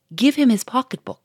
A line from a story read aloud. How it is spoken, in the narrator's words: cried a third